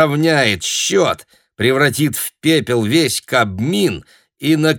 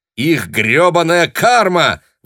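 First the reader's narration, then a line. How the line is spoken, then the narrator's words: Excited shout. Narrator (Russian): возбужденно выкрикнул Тарантино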